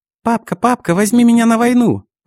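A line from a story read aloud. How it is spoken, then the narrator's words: Nasty childish yell. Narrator (Russian): Противным детским голосом проорал Лё Ха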